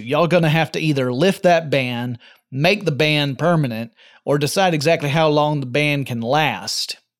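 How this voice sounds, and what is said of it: Speaker's own natural regional accent. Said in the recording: “the same accent that I do naturally”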